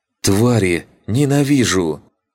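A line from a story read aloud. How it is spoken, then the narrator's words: Breathed out. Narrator (Russian): выдохнула Риена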